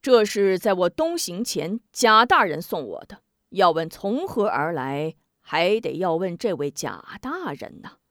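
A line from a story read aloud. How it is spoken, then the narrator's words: Smiling. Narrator (Chinese): 应提笑指贾怀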